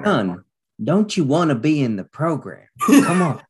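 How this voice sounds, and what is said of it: Put-on Southern accent. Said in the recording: “I added a Southern accent”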